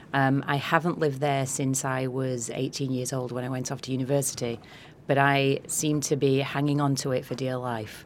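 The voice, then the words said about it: Eclectic northern English Yorkshire accent. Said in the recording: “my accent is from, I'm from a town in the south of Yorkshire, so northern England ... everybody at home tells me I have a very weird accent. So it's a little eclectic at this point.”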